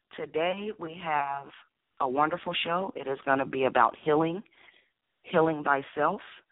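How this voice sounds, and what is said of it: Hoarse voice. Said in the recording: “my voice is hoarse ... I have a hoarse voice”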